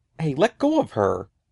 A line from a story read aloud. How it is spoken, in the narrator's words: Eddie cried